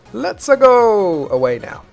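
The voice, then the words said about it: Exaggerated Mario-style character accent. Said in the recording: “that's a super racist accent ... Blame that guy who voices Mario”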